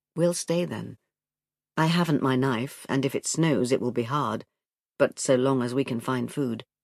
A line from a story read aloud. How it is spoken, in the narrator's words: said in his grave, quiet voice